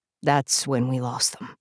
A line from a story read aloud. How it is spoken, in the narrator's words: he said quietly